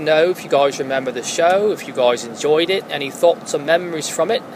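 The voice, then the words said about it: Fake British accent. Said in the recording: “thank you for that fake British accent ... I thought you were British ... I was fooled”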